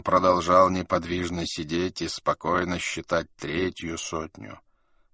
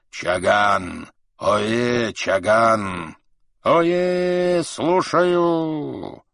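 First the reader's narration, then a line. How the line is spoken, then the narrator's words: Low hoarse roar. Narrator (Russian): Низким, хриплым голосом Каган проревел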